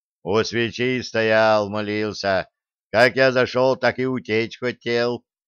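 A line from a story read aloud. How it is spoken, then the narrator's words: Booming guard's voice. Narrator (Russian): прогудел дружинник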